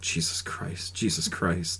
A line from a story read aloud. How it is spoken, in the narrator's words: Over and over, kept muttering